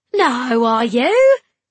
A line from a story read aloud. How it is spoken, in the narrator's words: He laughed in a disbelieving way